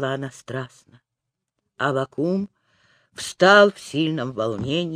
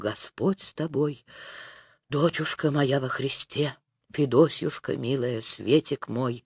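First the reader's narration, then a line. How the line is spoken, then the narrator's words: Confused, joyful muttering. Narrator (Russian): бормотал растерянно, радостно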